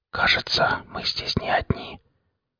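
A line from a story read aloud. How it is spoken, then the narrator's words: Soft whisper in ear. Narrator (Russian): тихонечко наклонившись к Денису, в самое ухо прошептал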